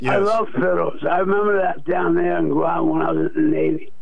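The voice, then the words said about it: Rough, raspy voice. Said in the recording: “I know my voice is rough.”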